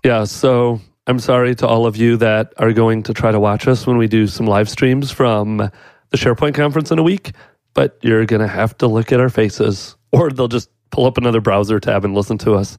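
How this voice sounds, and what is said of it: Deep, sick-sounding voice. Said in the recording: “I am sick. So now I have my deep radio voice. This is the only time I'll have some semblance of a radio voice.”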